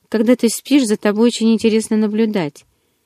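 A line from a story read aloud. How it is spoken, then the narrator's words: Matter-of-fact announcement. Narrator (Russian): объявил Эдвард будничным тоном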